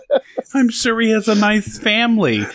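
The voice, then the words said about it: Put-on New York accent. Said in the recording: “I can now use that accent without license... I like that accent... I'm a New Yorker now.”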